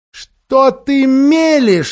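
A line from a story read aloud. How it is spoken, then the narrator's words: Exclaimed. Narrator (Russian): воскликнула тетя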